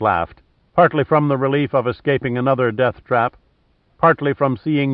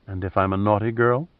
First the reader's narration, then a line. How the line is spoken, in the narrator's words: murmured